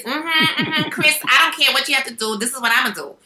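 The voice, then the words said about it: Little girl's character voice. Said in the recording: “I played the little sister, and she talked like just like my niece... imitating her”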